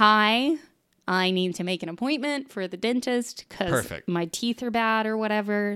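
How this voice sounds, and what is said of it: Usual voice. Nothing is said of it.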